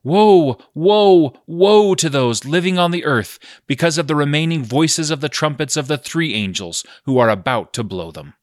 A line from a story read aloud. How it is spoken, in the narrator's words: an eagle flying directly overhead, crying in a loud voice